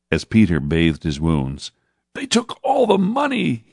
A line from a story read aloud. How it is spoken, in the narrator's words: he sobbed